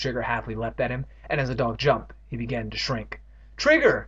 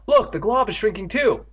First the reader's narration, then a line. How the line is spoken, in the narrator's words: Andy cried